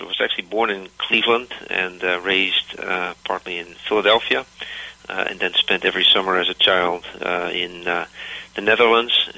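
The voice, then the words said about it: Dutch-American accent. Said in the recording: “my funny accent, I'm a Dutch-American”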